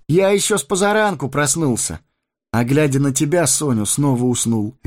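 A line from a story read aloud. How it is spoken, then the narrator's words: Cheerful. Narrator (Russian): весело проговорил он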